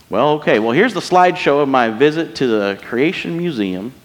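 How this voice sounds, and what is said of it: Put-on American Southern accent. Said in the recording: “I gave a southern accent... That's just an accent I do for fun”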